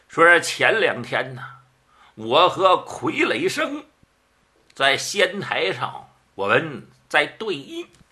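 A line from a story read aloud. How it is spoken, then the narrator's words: Slight smile. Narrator (Chinese): 焦继生微含一笑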